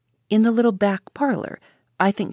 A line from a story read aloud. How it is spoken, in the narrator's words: she said